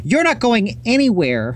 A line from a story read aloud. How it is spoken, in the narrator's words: Todd shouted